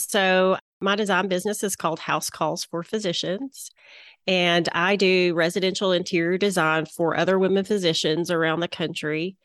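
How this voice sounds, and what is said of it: Southern American accent. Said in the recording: “my Southern accent”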